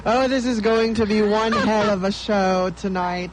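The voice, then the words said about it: Put-on British-sounding accent. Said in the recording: “Bakit may accent ka? ... Nag-iba, naging imported po si ... baka nasa UK na kami”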